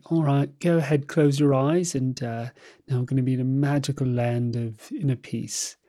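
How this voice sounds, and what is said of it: Imitated calm British accent. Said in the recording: “She's got a great British voice, a British accent.”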